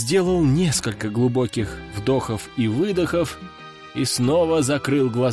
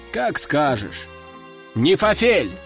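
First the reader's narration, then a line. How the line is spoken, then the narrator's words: Shouting. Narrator (Russian): Выкрикнул я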